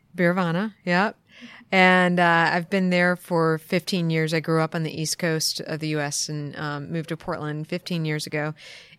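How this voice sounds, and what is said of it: Non-local accent. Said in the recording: “we can tell from your accent you're not a local”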